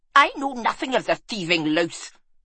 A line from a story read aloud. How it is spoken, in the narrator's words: hissed Dunald